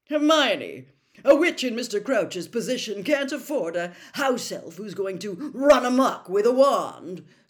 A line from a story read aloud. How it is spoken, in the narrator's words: said Percy pompously, recovering himself